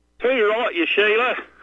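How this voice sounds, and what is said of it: Put-on Australian accent. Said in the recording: “That's Australian. ... A good start.”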